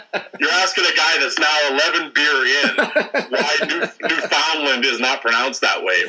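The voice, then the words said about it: Canadian accent. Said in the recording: “you're obviously from Canada. I can hear it in your accent.”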